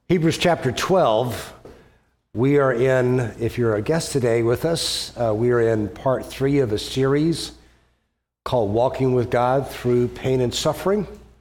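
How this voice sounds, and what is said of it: Voice sounds like a cold. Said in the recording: “as you may be able to tell. I've got a bit of a cold”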